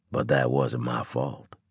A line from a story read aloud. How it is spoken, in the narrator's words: he mumbled